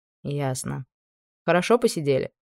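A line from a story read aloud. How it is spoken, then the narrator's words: Calm. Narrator (Russian): Я бы сказала спокойно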